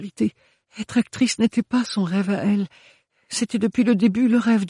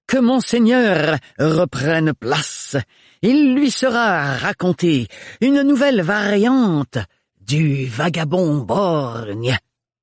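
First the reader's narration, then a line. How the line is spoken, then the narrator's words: Thunderous announcing voice. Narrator (French): annonça d'une voix si puissante que ses airs évoquaient des coups de tonnerre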